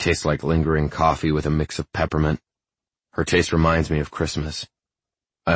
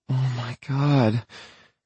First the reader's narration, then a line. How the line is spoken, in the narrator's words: she moans